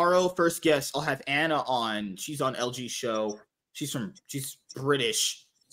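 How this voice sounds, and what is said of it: Usual voice. Nothing is said of it.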